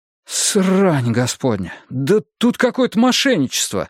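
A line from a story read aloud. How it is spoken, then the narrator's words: Exclaimed. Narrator (Russian): воскликнул я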